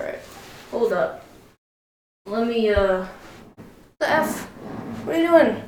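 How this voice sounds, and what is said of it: Usual voice. Nothing is said of it.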